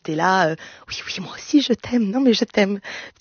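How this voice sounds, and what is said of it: Whispering. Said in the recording (French): “au début, tu chuchotes”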